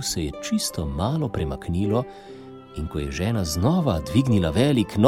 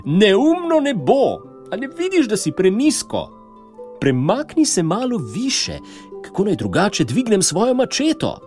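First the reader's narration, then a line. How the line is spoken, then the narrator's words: Stubborn woman shouting. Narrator (Slovenian): žena, ki je bila trmasta, začela kričati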